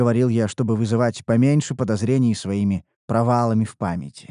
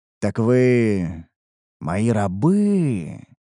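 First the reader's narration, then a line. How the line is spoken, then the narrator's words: Drawled, confirming not asking. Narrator (Russian): Протянул я, скорее подтверждая свои догадки, а не вопрошая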